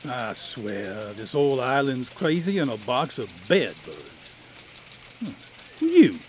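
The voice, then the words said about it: Thick, syrupy drawling accent. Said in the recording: “an accent that dripped like a busted bottle of blackstrap molasses”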